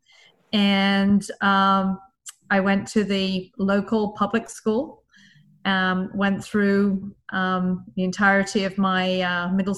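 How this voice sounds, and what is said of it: English accent from southwest England. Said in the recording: “as you can probably tell from my accent, I'm from the UK. I was born and brought up in a county called Devon, which is in the southwest of England.”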